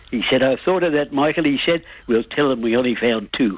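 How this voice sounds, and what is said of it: Accented, pleasant voice. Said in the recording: “I love the accent. ... And I love that beautiful voice.”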